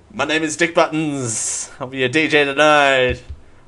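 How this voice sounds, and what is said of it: Nightclub DJ announcer voice. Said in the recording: “That's my impression of nightclub music”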